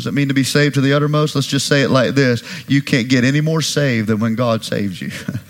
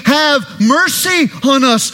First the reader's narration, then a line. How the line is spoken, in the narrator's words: they cried